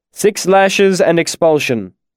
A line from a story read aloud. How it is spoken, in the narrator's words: the Chancellor carried on in an official voice